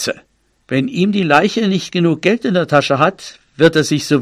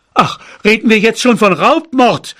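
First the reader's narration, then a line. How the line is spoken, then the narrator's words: Shouted. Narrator (German): schrie mein Vater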